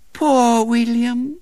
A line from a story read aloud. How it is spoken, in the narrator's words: said Violet Elizabeth sweetly